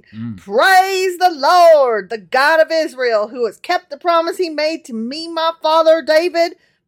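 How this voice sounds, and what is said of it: Fake Southern televangelist accent. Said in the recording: “accent ... all of a sudden you have like a really fake southern accent ... I imagine him as like a televangelist”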